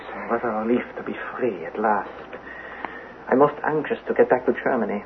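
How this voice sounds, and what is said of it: German accent. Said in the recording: “The German accent.”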